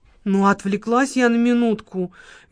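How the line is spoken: Guilty voice. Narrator (Russian): виноватым голосом проговорила Лола

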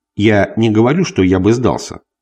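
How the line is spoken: Cold, growing anger. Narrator (Russian): холодно ответил я, начиная уже сердиться

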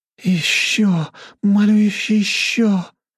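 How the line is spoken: Moaning young women. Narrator (Russian): стонали девушки

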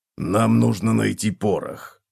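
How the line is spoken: Gruff mutter. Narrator (Russian): буркнул Готрек

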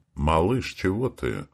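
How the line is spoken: Plain. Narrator (Russian): Спросила Наташка

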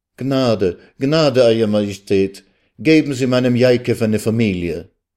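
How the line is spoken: Heartfelt pleading cry. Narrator (German): Aus der Tiefe ihrer Seele rief sie zu dem Herrscher auf

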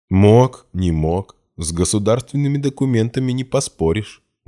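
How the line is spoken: Booming laugh. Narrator (Russian): громогласно хохотнул старший

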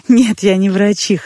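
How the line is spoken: Laughing. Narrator (Russian): засмеялась

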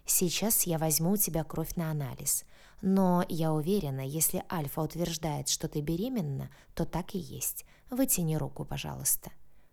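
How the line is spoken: Gentle request. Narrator (Russian): мягко попросила она

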